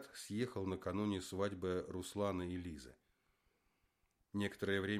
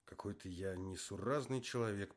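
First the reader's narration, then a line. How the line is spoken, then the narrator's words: Sad inner thought. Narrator (Russian): подумал грустно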